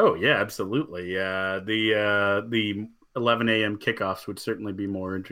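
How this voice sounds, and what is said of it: Usual voice. Nothing is said of it.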